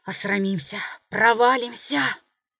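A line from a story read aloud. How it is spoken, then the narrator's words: Nervous shivering mutter. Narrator (Russian): он, пожимаясь от холода и волнения, бормотал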